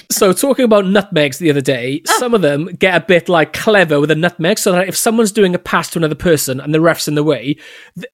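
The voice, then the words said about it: Welsh accent. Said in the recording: “it's a lovely word in a Welsh accent”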